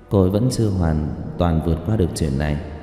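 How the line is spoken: Soft, quiet. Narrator (Vietnamese): Dương công tử nói khẽ

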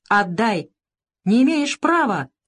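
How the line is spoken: Shouted. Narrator (Russian): закричал Савка

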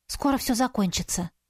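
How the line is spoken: Whisper. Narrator (Russian): шепнула мне

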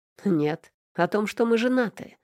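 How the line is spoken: Snorting boss. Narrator (Russian): хмыкнул босс

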